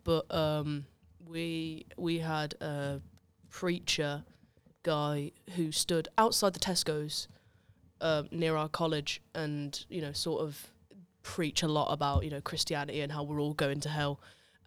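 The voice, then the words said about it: Black Country English accent. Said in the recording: “I'm from the Black Country, if people couldn't tell by the horrendous accent.”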